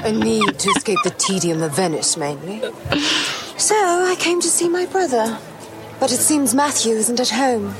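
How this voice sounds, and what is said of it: Posh, reserved British accent. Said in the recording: “She's got that stiff upper lip accent.”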